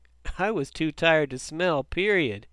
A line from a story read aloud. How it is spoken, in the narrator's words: Ricky laughed